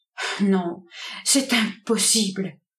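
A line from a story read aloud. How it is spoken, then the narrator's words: Stammered. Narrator (French): bégaya-t-elle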